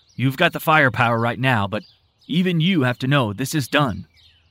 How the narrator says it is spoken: Tim grumbled

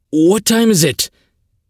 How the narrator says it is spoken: He gasped

